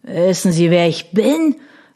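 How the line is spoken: Slurred. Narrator (German): lallte Locktrout

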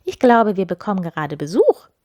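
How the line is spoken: Calling into the next room. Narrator (German): rief sie in die gute Stube

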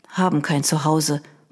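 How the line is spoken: Boy murmuring. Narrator (German): murmelte der Junge

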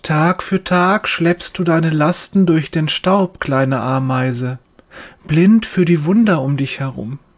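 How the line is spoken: Gentle voice. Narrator (German): sagt er mit sanfter Stimme

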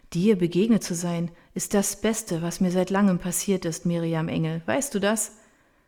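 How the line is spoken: Contented sigh. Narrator (German): Sie seufzt wohlig

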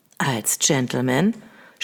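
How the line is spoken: Soft-voiced suggestion. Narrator (German): schlug er mit weicher Stimme vor

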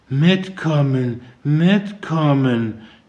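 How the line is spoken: Mumbling to herself. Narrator (German): nuschelte sie vor sich hin

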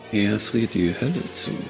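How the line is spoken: Murmur while walking. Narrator (German): murmelte Ashlyn im Gehen

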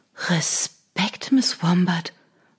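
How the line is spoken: Whispered. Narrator (German): flüsterte sie der Tür zu

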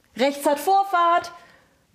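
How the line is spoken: Bellowing. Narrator (German): brüllte er

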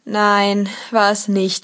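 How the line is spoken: Groaning young man. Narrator (German): stöhnte der junge Polizist

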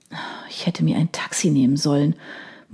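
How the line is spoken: Quiet mutter to herself. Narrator (German): murmelte sie leise vor sich hin

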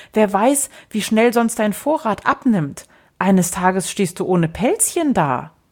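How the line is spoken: Small child calling out. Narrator (German): rief der Kleine

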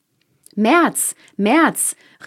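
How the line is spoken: Calling after. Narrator (German): rief der vierte ihm nach

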